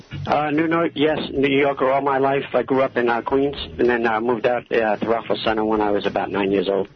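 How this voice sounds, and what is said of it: New York accent. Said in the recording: “You have that wonderful accent that we us Texans think New Yorkers”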